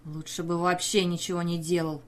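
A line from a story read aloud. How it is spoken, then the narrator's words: Grumbling. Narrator (Russian): проворчал в ответ Хелман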